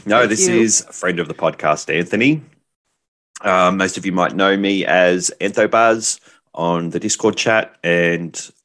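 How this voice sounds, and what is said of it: Australian accent. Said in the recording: “I know you're hearing the Australian accent”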